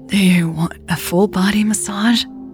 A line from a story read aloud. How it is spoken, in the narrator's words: Elle asked, her voice breathless from the intensity of her massage